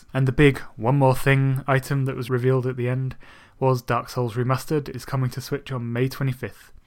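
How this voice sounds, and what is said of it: Monotone speaking voice. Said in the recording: “my monotone voice”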